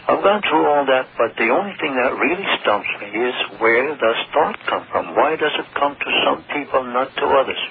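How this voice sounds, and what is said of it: Eastern US Connecticut accent. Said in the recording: “You almost sound Jewish to me. Like you almost have a little Jewish accent there. ... That's an Eastern accent. ... Connecticut ... Accent.”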